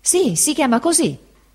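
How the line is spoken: Exclaimed. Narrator (Italian): esclamò il pescatore Peggotty

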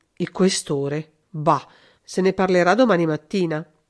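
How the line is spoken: Murmured. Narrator (Italian): il commissario che mormorava

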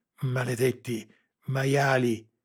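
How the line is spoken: Panting, helpless rage. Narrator (Italian): ansimò Lara, sopraffatta dalla rabbia impotente

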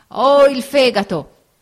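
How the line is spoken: Old man's shout. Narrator (Italian): gridò il vecchio

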